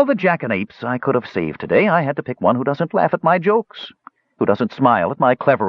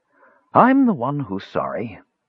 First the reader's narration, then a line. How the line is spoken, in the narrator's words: Skowar replied mournfully